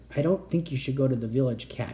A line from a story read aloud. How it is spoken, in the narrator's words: he said softly